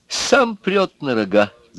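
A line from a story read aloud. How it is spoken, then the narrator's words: Laughing. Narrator (Russian): засмеялся Губошлеп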